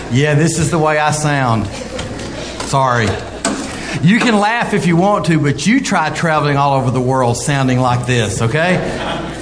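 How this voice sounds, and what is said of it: Strong regional American accent. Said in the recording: “apologizing for my accent ... The folks in Rochester thought Gomer Pyle had come to town.”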